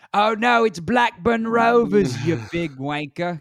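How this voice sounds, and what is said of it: Put-on accent, not very good. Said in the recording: “accent portion of that because it's not good ... That was better than most of your accents though”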